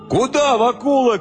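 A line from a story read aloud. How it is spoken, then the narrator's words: Young men shouting. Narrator (Russian): кричали парубки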